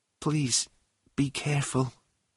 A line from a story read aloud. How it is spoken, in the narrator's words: she whispered suddenly